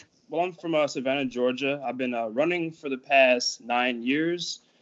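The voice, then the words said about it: Southern Georgia accent. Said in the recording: “You have an accent? ... You have that Georgia accent. ... You have the South.”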